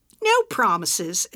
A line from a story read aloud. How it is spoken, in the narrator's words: Edna said, smiling